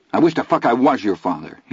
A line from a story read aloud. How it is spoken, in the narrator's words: he said angrily